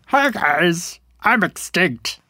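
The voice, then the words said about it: Dinosaur character voice. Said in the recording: “do your dinosaur voice”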